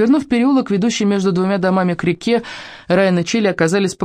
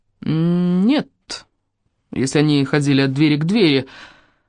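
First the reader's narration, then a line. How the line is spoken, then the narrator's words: Gloomy objection. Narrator (Russian): мрачно возразил Райан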